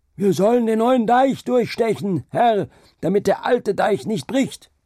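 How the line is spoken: Shouted back. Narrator (German): der Mensch schrie dagegen

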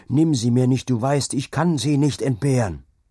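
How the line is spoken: Shouted. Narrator (German): schrie

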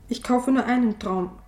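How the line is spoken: Hasty. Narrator (German): sagte ich hastig

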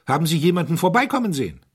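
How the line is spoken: Called out. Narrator (German): rief der Herzog

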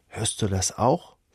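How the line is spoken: Whisper. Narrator (German): flüstert er

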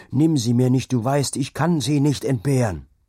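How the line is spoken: Screaming. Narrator (German): schrie er

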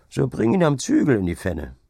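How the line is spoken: Laughing. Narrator (German): setzte Hauke lachend hinzu

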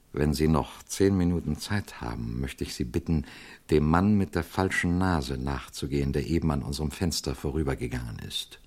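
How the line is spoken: Quiet. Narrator (German): sagte er leise

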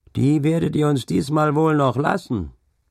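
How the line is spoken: Heated calling out. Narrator (German): rief einer von den Geestleuten, denn es ging scharf her

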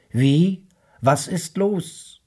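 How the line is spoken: Calling back. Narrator (German): rief zurück

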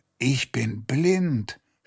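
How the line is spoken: Groaned. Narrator (German): stöhnte er

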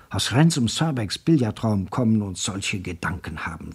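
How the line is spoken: Whispering. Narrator (German): flüsterte er

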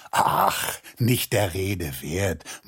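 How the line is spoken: Men murmuring. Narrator (German): murmelten da die Männer

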